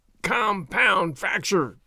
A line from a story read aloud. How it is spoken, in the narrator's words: he groaned